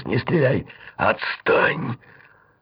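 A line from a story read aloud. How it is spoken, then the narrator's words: Through gritted teeth. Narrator (Russian): сказал ей сквозь зубы Долгособуров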